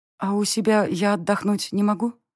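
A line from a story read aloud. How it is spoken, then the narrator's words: Glum question. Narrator (Russian): Уныло поинтересовалась я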